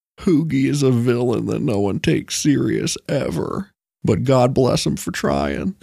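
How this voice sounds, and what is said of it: Bill Clinton and Bam Margera impression. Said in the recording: “That was a mixture of Bam Margera and Bill Clinton. ... You could run that as Bill Clinton doing a Bam impression.”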